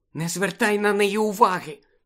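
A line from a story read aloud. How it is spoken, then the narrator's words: Whispered. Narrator (Ukrainian): прошепотіла Чо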